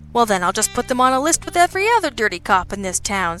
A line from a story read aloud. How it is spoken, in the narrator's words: Sabian said cheerfully